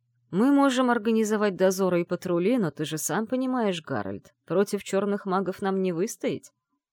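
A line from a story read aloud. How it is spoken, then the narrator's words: Plain. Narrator (Russian): сказал он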